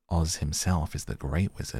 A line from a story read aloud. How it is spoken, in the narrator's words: answered the witch, sinking her voice to a whisper